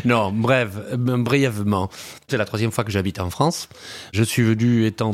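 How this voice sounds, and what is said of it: Slight Uruguayan Spanish accent. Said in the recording (French): “il y a un petit accent quand même... qui vient de l'Uruguay”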